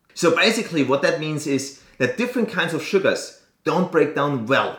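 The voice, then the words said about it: Speaks English with an accent. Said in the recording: “Sorry for my accent. I never know how to pronounce this”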